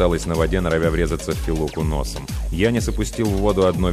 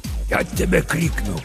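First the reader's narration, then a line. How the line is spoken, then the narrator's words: Hissing through teeth. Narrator (Russian): прошипел сквозь зубы папа Сатырос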